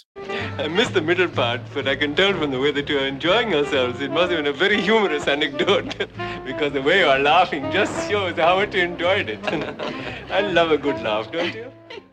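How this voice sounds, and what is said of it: Apu's put-on Indian accent. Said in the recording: “Apu was, in fact, a white dude doing an impression of a white dude doing his impression of an Indian guy”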